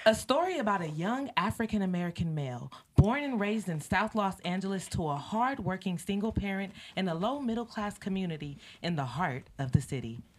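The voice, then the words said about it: Formal professional reading voice. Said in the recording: “put on my professional voice”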